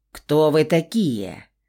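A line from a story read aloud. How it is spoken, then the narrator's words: Menacing voice. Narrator (Russian): грозным голосом поинтересовался змеелюд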